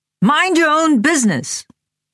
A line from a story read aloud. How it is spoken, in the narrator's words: beside himself with fury, was screaming at me at the top of his lungs